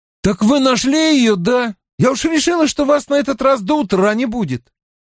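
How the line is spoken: Shouted. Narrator (Russian): крикнул

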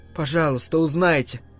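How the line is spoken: Trembling plea. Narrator (Russian): попросила Рэйчел дрогнувшим голосом

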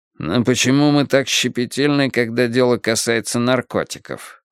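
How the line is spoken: Irritated grumble. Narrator (Russian): раздраженно проворчал человек из Министерства финансов

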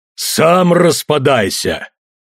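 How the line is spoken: Barking destroyer. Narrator (Russian): рявкнул великий разрушитель

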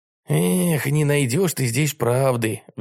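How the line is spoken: Sighing. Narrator (Russian): вздохнул Вольга

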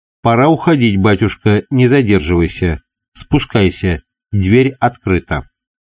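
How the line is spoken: Quick, hurried. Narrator (Russian): мельник быстро сказал

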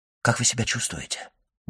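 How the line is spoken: Quick whispered question. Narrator (Russian): быстро спросил он шепотом

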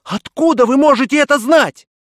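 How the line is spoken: Exclaiming. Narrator (Russian): Я воскликнул

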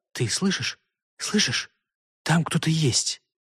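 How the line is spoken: Frightened whisper. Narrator (Russian): Элеонора испуганно шептала

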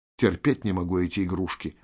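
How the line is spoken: Muttered. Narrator (Russian): пробормотал Виктор

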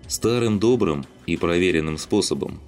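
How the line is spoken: Gloomy. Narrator (Russian): мрачно сказал Александр

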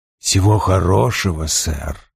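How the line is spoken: Muttered. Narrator (Russian): пробормотал Вульф

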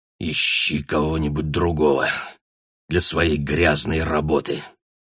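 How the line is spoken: Through gritted teeth. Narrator (Russian): процедил Гай сквозь зубы

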